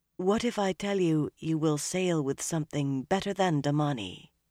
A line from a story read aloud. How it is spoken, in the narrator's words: Nynaeve said softly